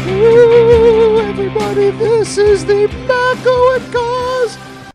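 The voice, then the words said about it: Paul Bearer impression. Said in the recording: “your impersonation of Paul Bearer there? ... You do a good Paul Bearer, but you're right. It's hard to sustain. ... Like just having to do that voice.”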